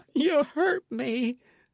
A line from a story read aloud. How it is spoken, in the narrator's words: sobbed Matcham